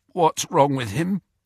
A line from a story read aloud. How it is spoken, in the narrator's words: croaked Fred, looking terrified